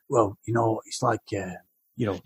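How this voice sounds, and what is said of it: Poor attempt at London accent. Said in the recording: “I can't do an impression ... You can't do the London chat. That's the problem. ... That's terrible. It's something like Snatch or something. That was awful.”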